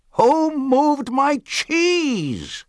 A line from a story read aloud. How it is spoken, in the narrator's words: he hollered